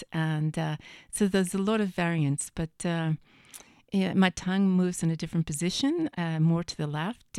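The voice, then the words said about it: Unusual accent of unclear origin. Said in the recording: “where's your accent from? ... it's gotten a little bit less pronounced over time. And then it can change.”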